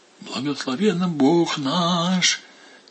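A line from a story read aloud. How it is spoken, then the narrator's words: Quiet, solemn. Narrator (Russian): тихо произнес владыка Иларион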